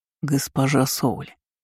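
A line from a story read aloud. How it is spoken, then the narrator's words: Hoarse call. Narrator (Russian): хрипло позвал ночной гость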